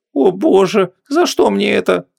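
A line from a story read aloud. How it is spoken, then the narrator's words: Moaning. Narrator (Russian): застонала Вон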